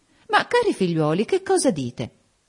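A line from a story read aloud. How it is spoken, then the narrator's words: Exclaimed. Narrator (Italian): esclamò Lady Lynn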